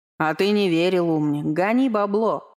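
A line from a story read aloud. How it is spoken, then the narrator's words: Laughing. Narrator (Russian): хохотнул Вейха, поддев собрата Силадара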